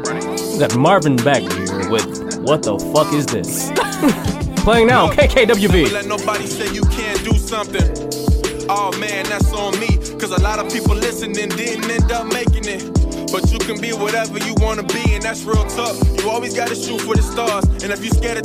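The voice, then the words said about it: Radio DJ announcer voice. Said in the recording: “announcer voice? ... The DJ?”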